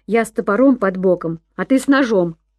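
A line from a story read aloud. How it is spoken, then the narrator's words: Laughing. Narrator (Russian): смеялся Сэм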